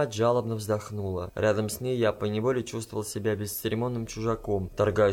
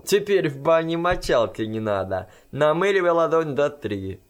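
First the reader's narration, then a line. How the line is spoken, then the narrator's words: Cheerful. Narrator (Russian): Не подозревавшая о моих терзаниях Кусана весело сказал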